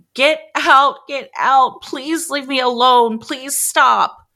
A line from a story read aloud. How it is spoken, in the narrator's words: the lady started sobbing